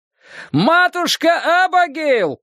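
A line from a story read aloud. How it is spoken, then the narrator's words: Shouting over engines. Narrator (Russian): прокричал Дик, перекрывая рев моторов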